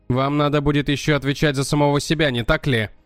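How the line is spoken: Snapping. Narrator (Russian): огрызнулся он

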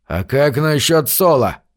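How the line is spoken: Grumbled. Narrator (Russian): проворчал Питер Орт

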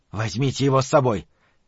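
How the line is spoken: Man, somewhat irritated. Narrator (Russian): несколько раздраженно ответил мужчина

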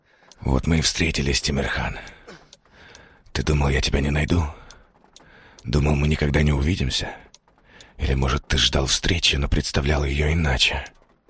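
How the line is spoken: Close, menacing whisper. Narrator (Russian): Шептал Бувайсар, наклонившись вплотную к лицу старика

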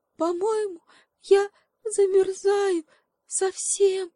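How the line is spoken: Small creature sobbing. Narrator (Russian): всхлипнула обезьянка

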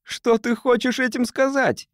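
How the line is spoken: Exclaiming. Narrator (Russian): воскликнул Даттон

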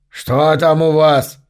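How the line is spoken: Shout. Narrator (Russian): крикнул водитель эвакуатора

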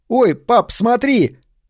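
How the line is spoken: Boy shouting excitedly from afar. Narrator (Russian): крикнул мальчик с другого конца зала, восторженно

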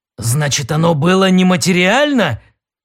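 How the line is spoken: Exclamation. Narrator (Russian): воскликнул Дрил

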